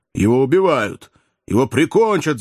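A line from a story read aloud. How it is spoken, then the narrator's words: Shouted. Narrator (Russian): закричал Кеннеди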